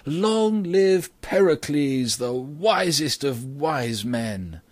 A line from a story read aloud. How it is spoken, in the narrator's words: The people cheered loudly at this and said